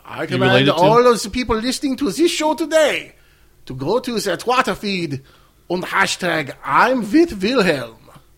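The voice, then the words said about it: Character voice with strange accent. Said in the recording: “You have a strange accent.”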